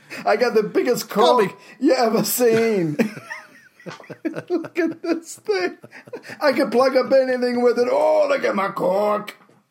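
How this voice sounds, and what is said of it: Put-on Scottish accent. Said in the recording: “He wasn't Scottish, but he used to just do that accent just because it was fun. People go, you're not even Scottish”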